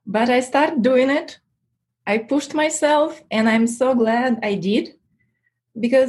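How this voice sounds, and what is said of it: Non-native English accent. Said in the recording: “I have this accent and I'm not a native English speaker”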